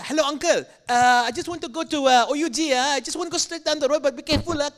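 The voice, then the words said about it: Put-on Malaysian English accent. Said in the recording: “You can't be making fun of that guy's accent ... Something subconscious happens when I'm with Malaysians.”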